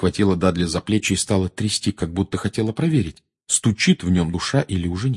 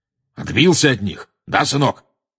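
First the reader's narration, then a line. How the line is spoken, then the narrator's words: Loud question. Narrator (Russian): громко спросил дядя Вернон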